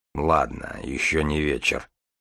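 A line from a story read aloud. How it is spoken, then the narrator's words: Gloomy, to himself. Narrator (Russian): мрачно сказал он сам себе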